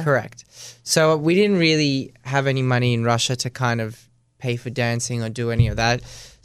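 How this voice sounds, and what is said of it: Australian accent. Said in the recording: “Your accent's very Australian, though.”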